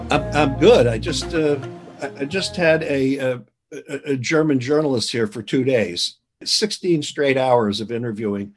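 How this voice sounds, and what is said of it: Slightly fuzzy, tired voice. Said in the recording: “my voice is a little fuzzy”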